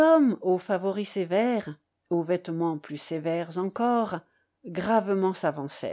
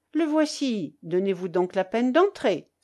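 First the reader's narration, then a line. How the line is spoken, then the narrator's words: Exclaimed. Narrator (French): s'écria-t-il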